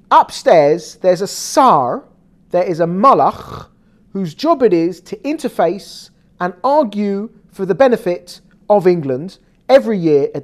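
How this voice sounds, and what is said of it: English accent. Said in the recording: “you probably hear from my accent, this is coming from England”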